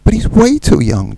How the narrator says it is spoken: John exclaimed, forgetting how delicate his position was

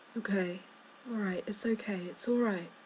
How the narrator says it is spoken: murmuring

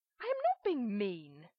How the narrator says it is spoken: Adam snaps, shocked

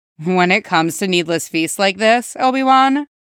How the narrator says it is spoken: Cody replied evenly

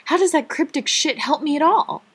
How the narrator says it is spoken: Rodney stared at her for a moment before shouting

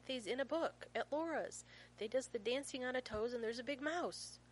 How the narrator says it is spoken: Finn says impatiently

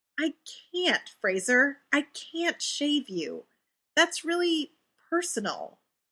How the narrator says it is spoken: Ray says desperately, because lately, being in Fraser's space is freaking him out a little bit

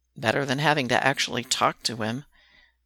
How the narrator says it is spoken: Derek mutters

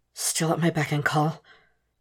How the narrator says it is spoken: Will gasps when they part for air

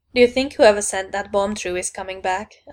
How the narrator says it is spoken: I asked

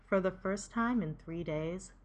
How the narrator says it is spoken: Stiles chuckles

